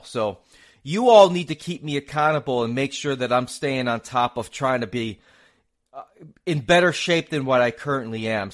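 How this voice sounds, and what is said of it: Mixed Northeastern and Southern American accent. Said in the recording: “There's my New England / New York / Southern accent for you. I'm a guy that sounds like a Northerner, except I say y'all.”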